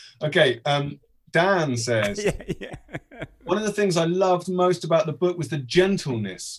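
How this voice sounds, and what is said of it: Usual voice. Nothing is said of it.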